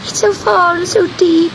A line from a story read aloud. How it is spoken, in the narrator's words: sobbed Gobellino